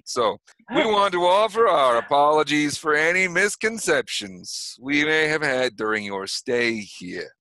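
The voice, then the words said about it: Put-on accent. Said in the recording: “I don't know why I'm suddenly speaking in an accent, but here we are, speaking in an accent.”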